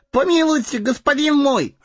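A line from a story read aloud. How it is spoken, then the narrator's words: Wailing plea. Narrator (Russian): завопил Сэмми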